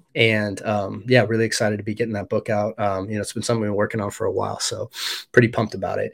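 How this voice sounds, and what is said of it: Slightly off voice from cold. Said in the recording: “I'm getting over a cold a bit ... My voice is a little off today”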